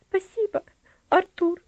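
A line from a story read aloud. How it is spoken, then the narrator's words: Girl smiling through tears. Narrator (Russian): ответила девочка, улыбаясь сквозь слезы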